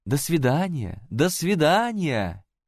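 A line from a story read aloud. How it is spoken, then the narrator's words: Shouting together. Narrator (Russian): кричали принц и принцесса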